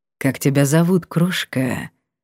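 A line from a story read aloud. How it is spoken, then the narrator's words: Velvety purr. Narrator (Russian): мурлыкнул он бархатно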